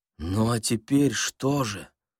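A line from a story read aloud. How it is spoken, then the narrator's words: Frightened smiling question. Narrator (Russian): спросил Балаганов, испуганно улыбаясь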